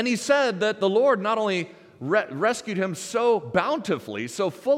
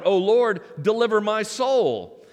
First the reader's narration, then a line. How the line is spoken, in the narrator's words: he cried out